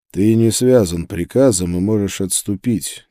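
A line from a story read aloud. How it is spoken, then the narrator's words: Quiet. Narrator (Russian): тихо сказал я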